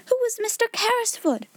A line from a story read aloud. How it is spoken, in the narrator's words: shouted Jessie